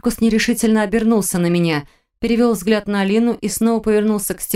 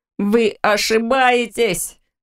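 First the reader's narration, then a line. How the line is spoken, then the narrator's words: Menacing raised voice. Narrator (Russian): Фрай грозно повысил голос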